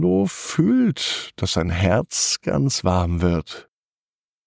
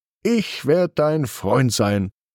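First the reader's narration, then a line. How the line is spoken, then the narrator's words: Firm voice. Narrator (German): sagt Carlo mit fester Stimme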